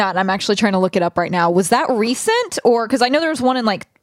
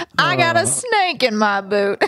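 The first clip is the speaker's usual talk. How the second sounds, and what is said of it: Badly put-on character accent. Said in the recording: “That was the worst accent ever.”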